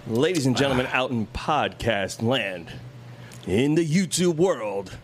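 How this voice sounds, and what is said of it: Announcer-style radio voice. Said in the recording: “I'm doing my radio voice. ... Is Bruce Buffer voice?”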